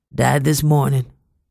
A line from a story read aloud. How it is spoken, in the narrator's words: croaked a man